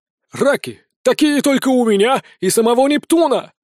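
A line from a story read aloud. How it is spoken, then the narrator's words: Hawker's loud shout. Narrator (Russian): кричал здоровенный дядька из лавки с морепродуктами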